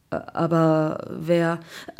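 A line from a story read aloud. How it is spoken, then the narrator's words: Surprised stammering. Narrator (German): Der Mann überrascht stotterte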